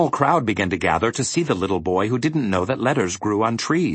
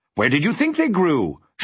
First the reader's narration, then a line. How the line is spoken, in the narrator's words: shouted the earl irritably